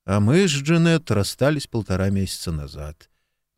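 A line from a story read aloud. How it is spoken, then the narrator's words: Gloomy. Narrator (Russian): мрачно сообщил Марк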